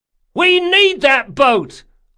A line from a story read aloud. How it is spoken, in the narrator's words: hollered Mazuka